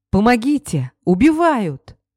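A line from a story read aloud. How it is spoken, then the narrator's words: Yelled. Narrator (Russian): заорал Стас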